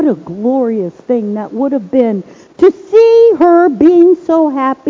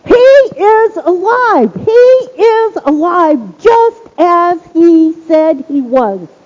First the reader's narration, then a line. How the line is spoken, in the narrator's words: She came shaken and hopeless, but she left running, screaming